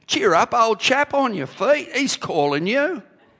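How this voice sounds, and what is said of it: Put-on English accent. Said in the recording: “Stephen Peter's accent ... I doubt whether they had an English accent”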